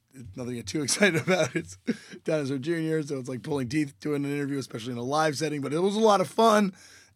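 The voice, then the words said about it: Hoarse, strained voice. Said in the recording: “sang with them and blew up my voice. So my voice is a little shot. So I apologize for the way I sound to you right now”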